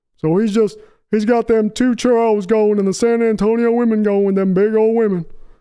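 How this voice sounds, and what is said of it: Weak Charles Barkley impression. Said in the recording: “that Barkley impression was terrible”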